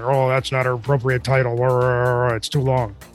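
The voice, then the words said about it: Crabby grumbling impression of a colleague. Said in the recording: “he's crabby and no fun ... he would be just grumbling and grumbling ... my LB impression”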